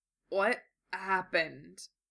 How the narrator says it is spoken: croaked

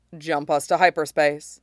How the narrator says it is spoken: he says calmly

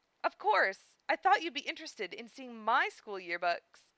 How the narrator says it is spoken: Philia said brightly

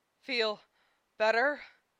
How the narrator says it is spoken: he asked between pants

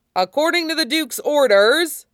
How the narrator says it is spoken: shouted desperately over the uproar

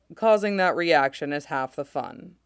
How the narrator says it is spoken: Pons says dryly

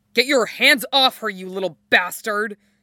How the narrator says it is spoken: he snarls

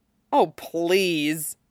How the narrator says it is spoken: Todd grumbled under his breath

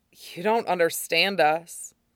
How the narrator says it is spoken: Zuko thought wearily

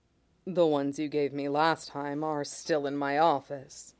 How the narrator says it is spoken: Mace says, quietly, warm

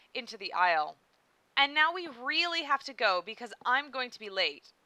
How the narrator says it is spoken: she said firmly

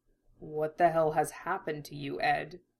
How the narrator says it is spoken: Roy murmured to himself

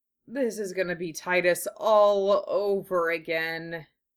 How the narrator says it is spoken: she sighed

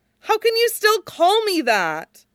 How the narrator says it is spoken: Wei Wuxian shouted

